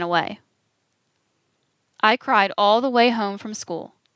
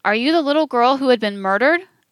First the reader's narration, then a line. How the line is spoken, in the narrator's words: Another called out